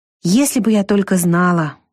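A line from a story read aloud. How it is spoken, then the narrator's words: Sigh. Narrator (Russian): вздохнула Вика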